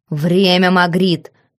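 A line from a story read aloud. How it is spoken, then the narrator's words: Growl. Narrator (Russian): рыкнул монарх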